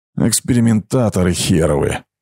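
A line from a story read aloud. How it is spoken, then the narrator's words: Through gritted teeth. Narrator (Russian): процедил Гром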